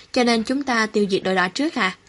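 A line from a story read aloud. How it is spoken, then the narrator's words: Plain. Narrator (Vietnamese): Mạnh Lương hỏi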